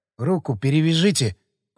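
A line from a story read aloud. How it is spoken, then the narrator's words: Hoarse rasp. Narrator (Russian): прохрипел я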